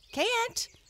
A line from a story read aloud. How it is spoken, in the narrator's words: cried the little breezes